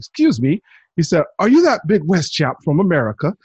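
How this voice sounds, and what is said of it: Terrible put-on British accent. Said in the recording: “I'm going to do my terrible British accent right now”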